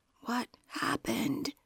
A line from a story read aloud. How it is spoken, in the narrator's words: she could only whisper